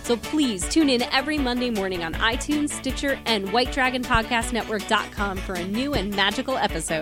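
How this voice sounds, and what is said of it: Announcer voice. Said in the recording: “I like your announcer voice.”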